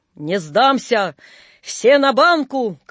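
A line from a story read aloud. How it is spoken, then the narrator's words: Cheerful shout. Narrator (Russian): крикнул он весело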